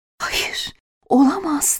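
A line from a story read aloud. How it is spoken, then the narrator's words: Whispered. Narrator (Turkish): diye fısıldadı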